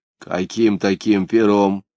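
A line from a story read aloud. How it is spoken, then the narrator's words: Bleating voice. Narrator (Russian): блеющим голосом осведомился Верия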